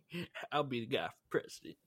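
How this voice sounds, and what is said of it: Southern-accented politician impression. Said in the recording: “the Bill Clinton impersonation ... It was like a mix between Clinton and W. Bush ... They both have Southern accents”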